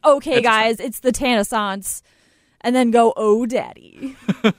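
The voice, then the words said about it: Imitates another person's voice. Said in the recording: “my Shime impression”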